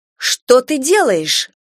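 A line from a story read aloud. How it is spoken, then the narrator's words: Indignant question. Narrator (Russian): возмущенно спросила я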